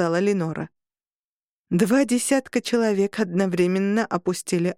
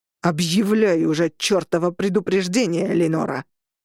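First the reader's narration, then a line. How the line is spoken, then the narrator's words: Growled. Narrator (Russian): прорычал Роган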